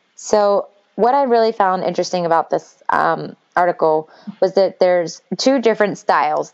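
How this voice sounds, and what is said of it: Slightly strained, fading voice. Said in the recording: “Can you hear? I'm kind of losing my voice a little bit. I've talked a lot today.”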